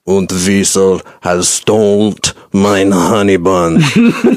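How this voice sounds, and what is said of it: Weird put-on German accent. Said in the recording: “a weird German European accent ... It sounds like a Rammstein song.”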